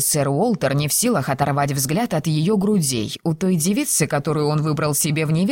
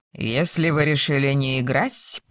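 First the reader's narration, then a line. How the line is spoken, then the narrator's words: Purring. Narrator (Russian): промурлыкал сэр Уолтер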